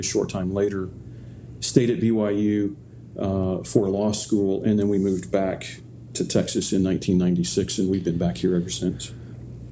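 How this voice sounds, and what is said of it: Slight Texas drawl. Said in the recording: “you sound like you've got a bit of a Texas drawl there. You've got a bit of a Texas accent.”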